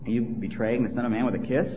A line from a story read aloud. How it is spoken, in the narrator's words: Jesus is, he kind of publicly but gently rebukes Judas for his treachery when he asks him